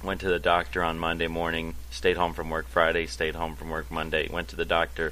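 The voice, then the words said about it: Sick-sounding voice. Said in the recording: “I don't know if you can tell from my voice, I have been sick. ... a upper respiratory infection”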